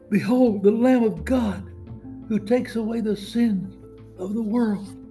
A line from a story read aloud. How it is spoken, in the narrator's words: cried out